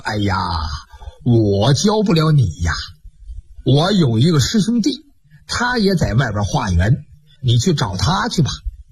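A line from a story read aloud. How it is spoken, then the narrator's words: Slight smile. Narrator (Chinese): 这和尚微微一笑，说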